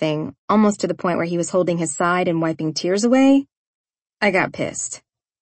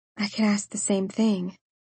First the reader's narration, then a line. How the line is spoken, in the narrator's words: I mumbled